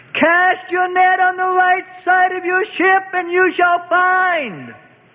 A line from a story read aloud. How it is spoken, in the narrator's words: the figure called out loudly across the gray waters